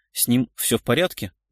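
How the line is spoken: Irritated doctor answering. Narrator (Russian): раздраженно ответил врач

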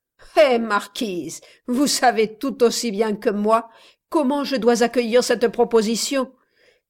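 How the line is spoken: Sneering laugh. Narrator (French): dit enfin Don Roque en ricanant

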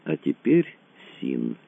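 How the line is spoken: Slow. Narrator (Russian): медленно заговорил Рэндалл

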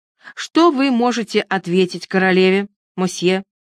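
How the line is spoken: Stern question. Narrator (Russian): спросил он строго

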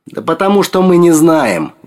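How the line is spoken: Exclamation. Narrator (Russian): воскликнул

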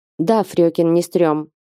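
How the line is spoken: Steady-voiced question. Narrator (Russian): спросил недрогнувшим голосом

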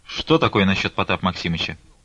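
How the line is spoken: Quick. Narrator (Russian): быстро сказала Манефа

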